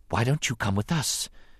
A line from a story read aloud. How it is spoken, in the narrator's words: the handmaiden Rabe said, her voice a whisper